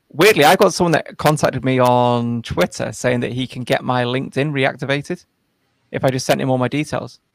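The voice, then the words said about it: Noticeable accent. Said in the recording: “a lot of people say my accent's quite difficult to understand. ... your accent is very lovely to listen to.”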